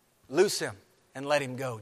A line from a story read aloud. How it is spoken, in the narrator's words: Jesus says